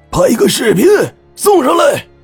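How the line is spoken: Loud shout through cupped hands. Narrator (Chinese): 老姜双手捂住嘴巴，大声的把声音往崖下送

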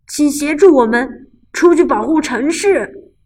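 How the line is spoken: Police chief shouting. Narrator (Chinese): 警察局长喊道

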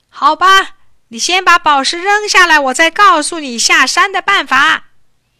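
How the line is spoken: Shouting. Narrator (Chinese): 伊尔喊

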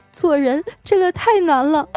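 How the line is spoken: Crying. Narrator (Chinese): 一边哭啊，还一边说

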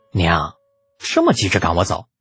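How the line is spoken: Exasperated muttering. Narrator (Chinese): 李浩表示很无语，好半晌嘀咕了一句

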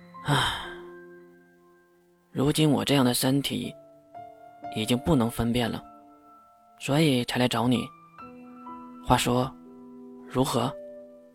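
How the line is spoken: Helpless sighing. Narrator (Chinese): 这话说的越有些无奈，他叹气说道

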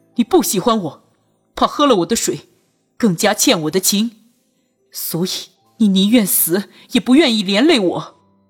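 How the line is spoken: Indignant, loud. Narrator (Chinese): 他见君玉依旧不作声，又愤愤的大声道

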